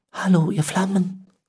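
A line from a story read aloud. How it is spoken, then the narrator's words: Soft call. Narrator (German): rief er leise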